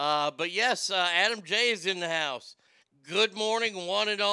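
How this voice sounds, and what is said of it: Usual voice. Nothing is said of it.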